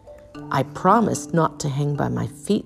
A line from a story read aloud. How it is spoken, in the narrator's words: Stellaluna sighed